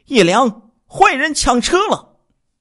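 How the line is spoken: Shouting. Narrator (Chinese): 李瑞玲喊叫自己的丈夫

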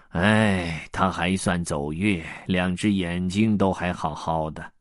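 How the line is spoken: Sighing. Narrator (Chinese): 吉哥叹道

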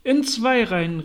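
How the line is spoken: Mock turtle calling. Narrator (German): rief die falsche Schildkröte

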